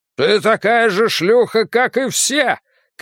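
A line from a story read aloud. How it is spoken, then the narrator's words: Angry shouting. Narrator (Russian): кричал он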